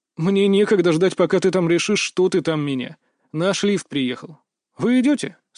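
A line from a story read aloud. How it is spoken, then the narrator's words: Bored. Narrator (Russian): со скучающим тоном спросил я у коллег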